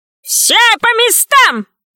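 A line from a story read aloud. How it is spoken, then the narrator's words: Shouted. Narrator (Russian): закричал Добрец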